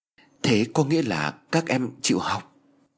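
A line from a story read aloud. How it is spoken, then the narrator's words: Stammering woman. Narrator (Vietnamese): Cô lắp bắp nói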